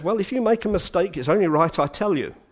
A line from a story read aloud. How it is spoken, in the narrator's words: And Spurgeon very kindly said